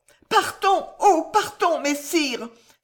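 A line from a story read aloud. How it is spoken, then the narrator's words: Exclaimed. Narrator (French): s'écria alors Françoise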